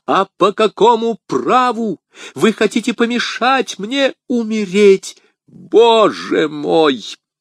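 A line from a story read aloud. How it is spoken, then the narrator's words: Alarmed exclamation. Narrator (Russian): воскликнул Фельтон, увидев, что в руке у нее блеснул нож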